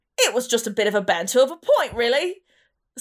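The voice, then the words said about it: Put-on accent. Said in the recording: “again with the accent? ... my really good accent work ... you're so good at accents.”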